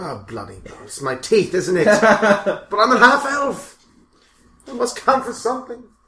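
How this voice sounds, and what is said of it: Put-on English accent. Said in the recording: “I have an English accent.”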